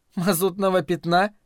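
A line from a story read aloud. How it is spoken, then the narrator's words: Doubtful question, then laughter. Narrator (Russian): недоверчиво спросила Лаверн и расхохоталась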